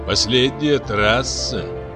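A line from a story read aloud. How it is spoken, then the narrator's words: Ominous voice. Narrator (Russian): зловещим голосом сказал Тентен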